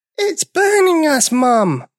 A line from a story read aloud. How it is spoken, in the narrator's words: they cried